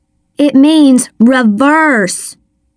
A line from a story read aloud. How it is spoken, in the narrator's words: I shouted over the engine's roar